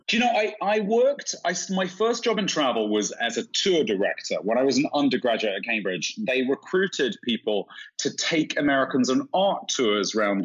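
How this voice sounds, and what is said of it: London accent with American drawl. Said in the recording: “I have quite a London accent, but it's tinged now after 20 years in America with an awful lot of transatlantic drawl. ... I sound a bit like Madonna to most British people ... I sound reasonably British ... there's little London twangs in there”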